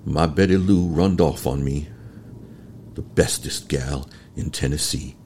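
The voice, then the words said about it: Southern US accent. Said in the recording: “I'm originally from Alabama. I have a lot of people from the South. You sound like people I know in my family. ... I wonder if my accent is appropriate for Tennessee.”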